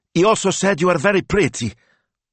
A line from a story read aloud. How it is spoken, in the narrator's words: with an impulsive gulp, he blurted